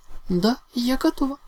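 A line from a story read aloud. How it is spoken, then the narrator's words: Flustered exclamation. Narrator (Russian): Немного суетливо воскликнула драконша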